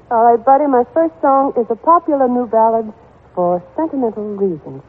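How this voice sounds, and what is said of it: Southern American accent. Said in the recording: “southern accent and all”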